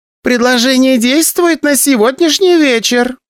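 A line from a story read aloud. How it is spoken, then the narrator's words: Loud call after someone. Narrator (Russian): громко сказала мне вдогонку Ася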